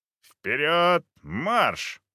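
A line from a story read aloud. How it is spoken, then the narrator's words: Thundering command. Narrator (Russian): прогремела команда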